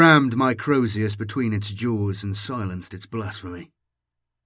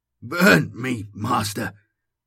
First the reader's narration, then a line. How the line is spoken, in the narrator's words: he rasped